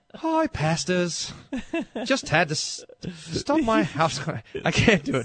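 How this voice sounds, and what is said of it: Put-on South African-sounding accent. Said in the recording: “is Australian. ... Australian. ... That's a little more South Africa. That's a little more like Central South African accent there.”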